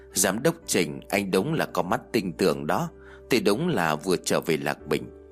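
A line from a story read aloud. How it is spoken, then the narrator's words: Scoffing reply. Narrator (Vietnamese): Tạ Vũ cười khẩy đáp lại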